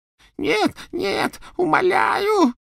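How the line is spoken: Choking on sobs. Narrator (Russian): захлебывался рыданиями Ксенофилиус

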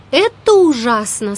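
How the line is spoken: Plain. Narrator (Russian): сказала Салли

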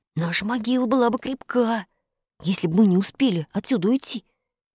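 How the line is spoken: Frightened whisper. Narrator (Russian): Испуганно прошептал Фред

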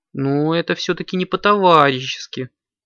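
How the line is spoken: Sad addition. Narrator (Russian): грустно добавила Аленка

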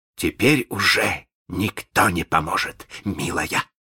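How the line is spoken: Gloating hiss. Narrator (Russian): злорадно прошипел Малинс

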